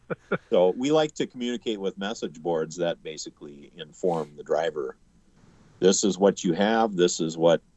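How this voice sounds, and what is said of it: Slight accent. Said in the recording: “You have a slight accent”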